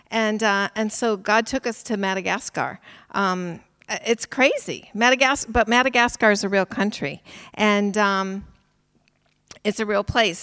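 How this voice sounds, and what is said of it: American English accent. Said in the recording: “you can hear from my accent that I'm not British, right? I'm from America originally”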